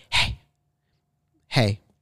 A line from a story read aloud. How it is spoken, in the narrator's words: heard an unknown voice whisper